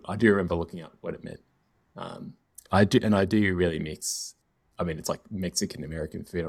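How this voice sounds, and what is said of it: Nasal, congested voice. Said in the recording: “I'm like recovering from this cold, so it's like it's making me extra nasally”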